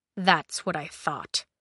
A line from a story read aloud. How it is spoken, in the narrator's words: he muttered